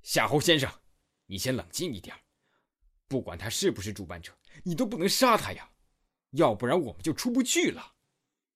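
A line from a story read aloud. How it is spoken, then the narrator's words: Loud. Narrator (Chinese): 南田大声说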